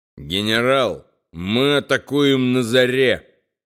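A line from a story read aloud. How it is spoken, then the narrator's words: Solemn. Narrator (Russian): торжественно произнес Том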